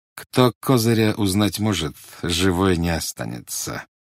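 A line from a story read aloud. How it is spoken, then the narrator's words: Through gritted teeth. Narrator (Russian): сквозь зубы процедил специалист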